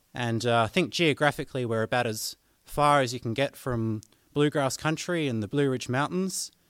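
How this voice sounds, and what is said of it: Australian accent with a twang. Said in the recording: “the twang in my accent ... I'm from the deep, deep, deep south here in Australia”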